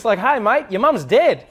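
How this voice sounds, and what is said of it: Put-on upbeat Australian accent. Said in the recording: “Australian accent ... you always sound happy ... it always goes up and it's like really exciting”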